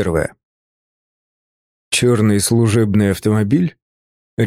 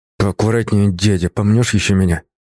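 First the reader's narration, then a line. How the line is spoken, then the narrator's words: Through gritted teeth. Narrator (Russian): Сквозь зубы процедил я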